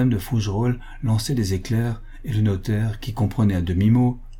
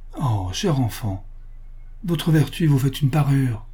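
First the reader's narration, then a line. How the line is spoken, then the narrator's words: Exclaiming. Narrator (French): s'écria Monsieur le curé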